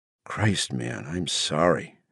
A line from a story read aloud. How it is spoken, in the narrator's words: murmured